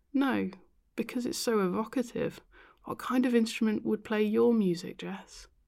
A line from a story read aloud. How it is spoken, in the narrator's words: sighed